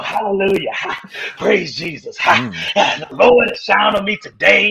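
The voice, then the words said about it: Preacher voice. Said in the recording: “give me your best preacher voice.”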